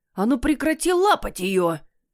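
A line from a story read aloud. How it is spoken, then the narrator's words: Indignant, near hissing. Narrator (Russian): возмутился Люцитор, ощетинившись и едва не зашипев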